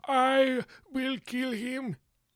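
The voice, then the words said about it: Poor imitation of a film villain. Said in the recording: “Terrible Ivan Drago impersonation.”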